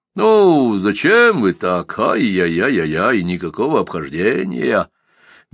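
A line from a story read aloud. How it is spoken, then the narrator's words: Softly raised, indignant. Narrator (Russian): Мягко возвысил голос Сумароков, наливаясь благородным негодованием и чуточку трезвее даже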